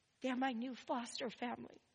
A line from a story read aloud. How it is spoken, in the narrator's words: whispers